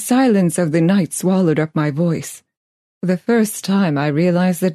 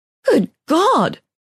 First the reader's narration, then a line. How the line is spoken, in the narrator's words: I gasped